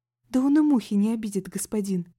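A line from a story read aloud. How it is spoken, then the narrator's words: Pleading. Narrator (Russian): взмолилась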